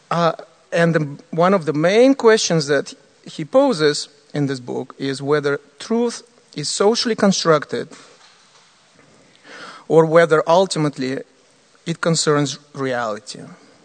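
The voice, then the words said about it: Non-native English accent. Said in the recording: “I'm trying to, you know, practice my English, you know. You can notice my accent, but I hope it's not too much for you.”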